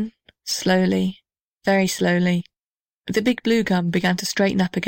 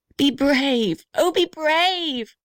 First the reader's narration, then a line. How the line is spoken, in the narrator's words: shrieked the little red house